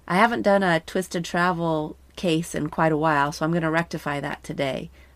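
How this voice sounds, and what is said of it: Slightly nasal, congested voice. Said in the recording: “I have a little bit of a cold. ... hopefully you won't hear my nasally congestion too much”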